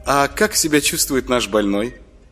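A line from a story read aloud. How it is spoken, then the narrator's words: Laughing question, female. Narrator (Russian): Засмеялась Маша и тут же спросила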